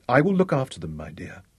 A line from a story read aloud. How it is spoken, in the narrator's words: he said